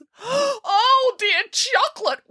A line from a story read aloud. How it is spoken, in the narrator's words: wailed Boris